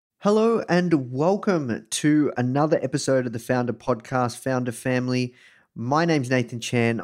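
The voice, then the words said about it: Australian accent. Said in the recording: “coming to you live from Melbourne, Australia. You can probably tell this from my accent.”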